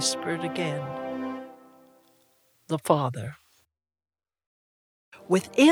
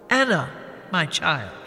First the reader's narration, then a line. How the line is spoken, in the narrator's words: he said